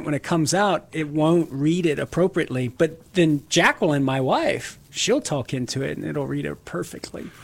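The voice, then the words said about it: Southern Louisiana accent. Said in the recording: “it can't recognize my accent sometimes ... from Southern Louisiana, try to talk into it with my accent”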